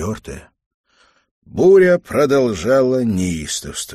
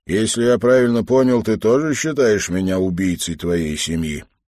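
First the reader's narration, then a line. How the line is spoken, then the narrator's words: Calm question. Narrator (Russian): он спокойно повернулся и спросил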